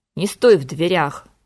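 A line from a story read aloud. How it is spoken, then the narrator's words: Irritated muffled growl. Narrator (Russian): раздраженно прорычала откуда-то из раскрытого шкафа хозяйка помещения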